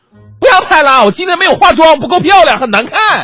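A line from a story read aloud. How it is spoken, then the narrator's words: Desperate anguished cry. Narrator (Chinese): 女孩绝望的撕心裂肺的爆出了一句荡气回肠、催人泪下的呐喊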